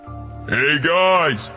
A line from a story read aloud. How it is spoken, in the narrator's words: I shouted